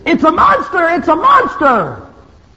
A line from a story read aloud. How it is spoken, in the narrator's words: screaming